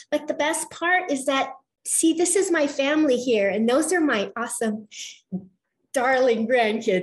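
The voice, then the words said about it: Choked-up, emotional voice. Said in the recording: “I get choked up”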